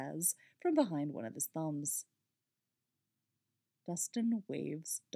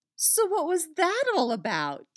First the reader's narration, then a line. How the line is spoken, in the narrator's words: She asks excitedly